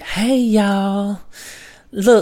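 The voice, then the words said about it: Imitated Southern Florida accent. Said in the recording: “She's got the Southern Florida wow. uh, accent.”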